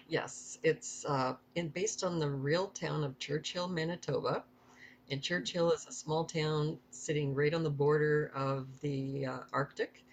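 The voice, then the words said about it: Slight Canadian accent. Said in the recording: “you may catch ... accent. She is from Canada. So you can hear that a little in her voice”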